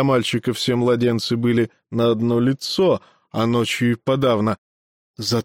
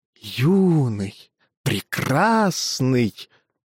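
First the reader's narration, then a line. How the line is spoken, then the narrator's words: Insinuating wind-like whisper. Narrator (Russian): Голос звучал вкрадчиво, как шепот ветра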